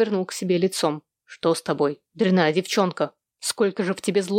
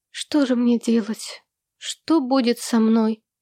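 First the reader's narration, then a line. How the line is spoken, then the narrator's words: Moaning. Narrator (Russian): простонала она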